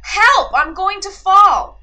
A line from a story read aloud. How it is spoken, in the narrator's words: he cried